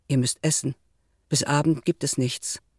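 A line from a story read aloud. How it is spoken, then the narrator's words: Suddenly calm. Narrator (German): sagte plötzlich ruhig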